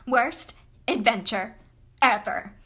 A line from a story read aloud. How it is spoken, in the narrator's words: Lilia spat